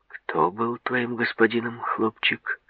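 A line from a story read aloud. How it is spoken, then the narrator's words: Calm question. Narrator (Russian): спокойно спросил человек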